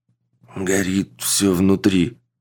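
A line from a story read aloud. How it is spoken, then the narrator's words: Forced out, parched lips. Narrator (Russian): пересохшими губами выдавил Родригес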